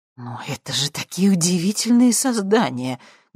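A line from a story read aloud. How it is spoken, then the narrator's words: Muffled mutter. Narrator (Russian): глухо пробормотал профессор Курчевский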